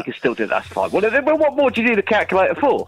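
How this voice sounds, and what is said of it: Put-on Cockney accent. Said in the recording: “speaking all Cockney ... I'm trying out a new voice”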